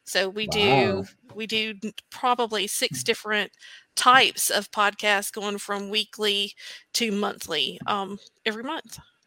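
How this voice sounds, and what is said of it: Southern US accent. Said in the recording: “where is your accent from? ... Us Southern girls can pick out the Southern accents so easy.”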